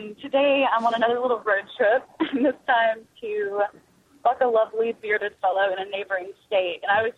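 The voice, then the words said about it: Midwestern American accent. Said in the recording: “she's not from Mississippi. She's from the Midwest. ... They don't talk like they're from Minnesota.”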